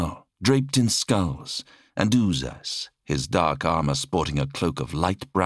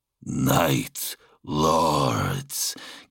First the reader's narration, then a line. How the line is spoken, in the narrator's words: came the wet growl of the exalted